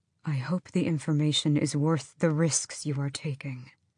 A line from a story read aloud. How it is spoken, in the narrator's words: his voice was too soft as he said